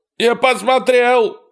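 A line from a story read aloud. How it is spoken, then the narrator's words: Shouting. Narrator (Russian): кричал Эрни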